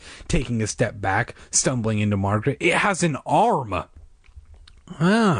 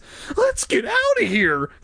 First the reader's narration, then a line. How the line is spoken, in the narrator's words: Casey cried, in fear